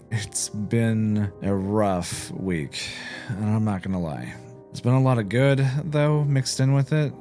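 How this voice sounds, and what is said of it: Tired, worn-out voice. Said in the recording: “you're definitely going to hear it in my voice. I'm beat.”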